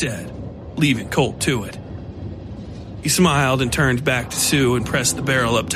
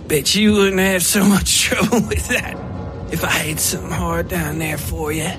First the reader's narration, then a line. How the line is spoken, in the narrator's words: Sue said, laughing